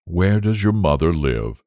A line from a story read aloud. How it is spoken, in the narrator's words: asked the Squire in a kindly tone, for he had already forgiven Little Boy Blue